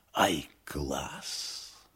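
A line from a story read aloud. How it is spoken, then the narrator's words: Admiring whisper. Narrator (Russian): гример восхищенно шепнул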